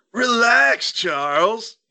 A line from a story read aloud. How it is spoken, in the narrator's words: he howled